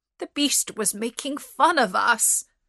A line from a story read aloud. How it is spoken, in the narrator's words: cried the merchant